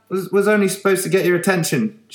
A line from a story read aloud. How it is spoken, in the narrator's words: shouted Vince through the window